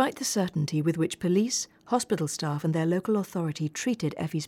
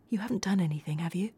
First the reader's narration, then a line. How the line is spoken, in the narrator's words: Carla nervously and quietly asked Craig